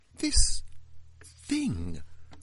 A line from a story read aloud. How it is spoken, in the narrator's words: I stammered